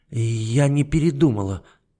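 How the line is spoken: Frightened voice. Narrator (Russian): Фредерика испуганно сказала

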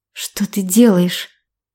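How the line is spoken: Breathy whisper. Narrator (Russian): с придыханием шепнула она

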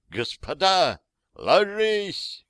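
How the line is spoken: Shouted. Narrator (Russian): крикнул кто-то

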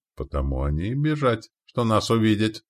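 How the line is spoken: Laughing. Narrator (Russian): рассмеялся тот

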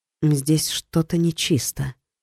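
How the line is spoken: Quiet. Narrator (Russian): тихо проговорила Ори

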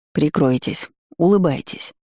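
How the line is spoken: Whispered instruction. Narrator (Russian): шептал он ей наставление

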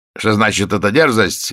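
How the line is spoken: Angry exclamation. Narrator (Russian): гневно воскликнул Колиньи

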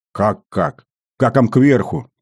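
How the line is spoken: Irritated bark. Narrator (Russian): раздраженно рявкнул тот

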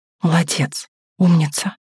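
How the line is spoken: Whisper. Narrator (Russian): шепнула она

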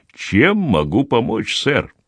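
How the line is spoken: Woman's low guttural voice. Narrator (Russian): женщина спросила низким гортанным голосом

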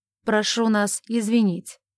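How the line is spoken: Commanding tone. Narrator (Russian): сказал он приказным тоном

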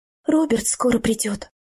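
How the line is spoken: Quiet. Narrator (Russian): негромко сказала она

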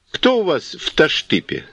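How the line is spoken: Calm question. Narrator (Russian): спросил, спокойно

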